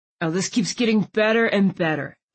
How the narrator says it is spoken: Landon grumbled

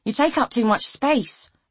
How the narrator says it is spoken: she said irritably

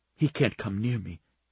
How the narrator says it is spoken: she whispered

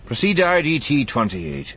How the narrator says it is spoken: he said in a bored voice

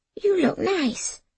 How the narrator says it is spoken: whispered, anxiously

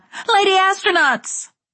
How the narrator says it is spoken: I shouted

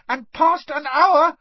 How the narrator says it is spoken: squeaked Dobby

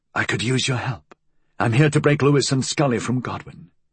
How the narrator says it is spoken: whispered

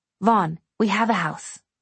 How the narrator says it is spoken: she hissed

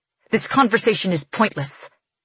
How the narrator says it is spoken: he snaps

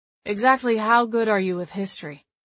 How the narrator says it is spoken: Miles asked, his tone back to bland and unaffected

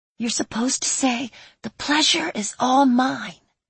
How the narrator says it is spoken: she whispered

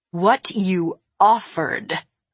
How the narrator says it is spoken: I said, my voice trembling with rage

